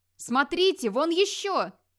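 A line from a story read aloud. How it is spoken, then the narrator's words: Wildly jubilant yell. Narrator (Russian): С безумным ликованием заорал кто-то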